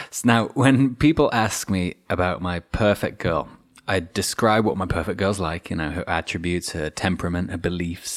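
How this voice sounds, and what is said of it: Mixed English-Australian accent. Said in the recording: “we moved to Australia from England. That kind of half explains a strange accent.”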